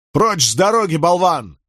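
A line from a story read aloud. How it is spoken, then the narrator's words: Barked. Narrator (Russian): рявкнул Николас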